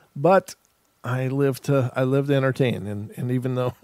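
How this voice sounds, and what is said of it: Usual voice. Nothing is said of it.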